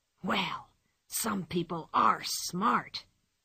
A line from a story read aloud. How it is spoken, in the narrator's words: he whispered to his companion